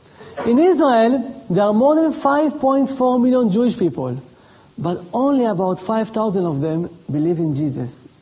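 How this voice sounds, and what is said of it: Israeli accent. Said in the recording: “Can you hear my accent? That's right. I am from Israel”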